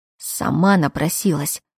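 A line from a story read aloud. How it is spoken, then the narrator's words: Through gritted teeth. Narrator (Russian): процедил Кайл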